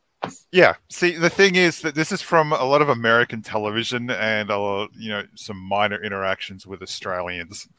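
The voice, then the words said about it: Australian accent, sounds somewhat Bostonian. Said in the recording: “I would have pegged you for a feller that was from Boston ... with your accent there, I thought you was from Boston ... You're from Australia? ... You remind me of a fella from Boston”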